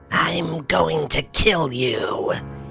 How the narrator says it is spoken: she hissed

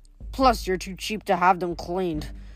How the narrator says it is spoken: Eurytion mumbled from under his hat

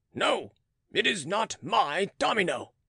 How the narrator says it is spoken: replied Beausire gruffly

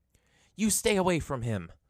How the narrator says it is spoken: yelled

